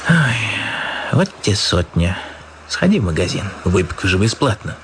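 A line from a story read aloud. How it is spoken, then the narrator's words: Sighing. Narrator (Russian): Львович вздохнул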